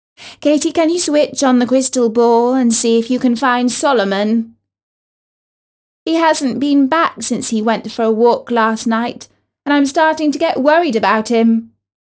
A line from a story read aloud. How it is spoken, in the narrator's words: Katie's mum called out